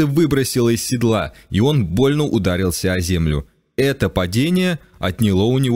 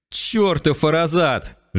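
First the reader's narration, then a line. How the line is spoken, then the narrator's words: Snorting stallion. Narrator (Russian): жеребец фыркнул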